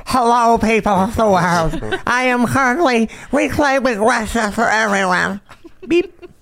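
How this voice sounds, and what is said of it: Imitates another person's voice. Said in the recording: “That's a good Nancy Pelosi. ... That's his best impression.”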